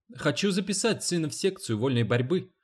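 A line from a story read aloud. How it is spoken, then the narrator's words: Quick speech. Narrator (Russian): быстро сказала Дженни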